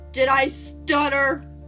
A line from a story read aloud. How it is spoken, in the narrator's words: I snapped